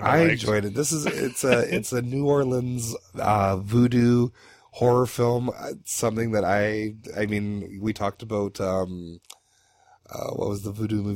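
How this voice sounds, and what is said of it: Hoarse, fading voice. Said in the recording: “I can't talk right now. I'm losing my voice.”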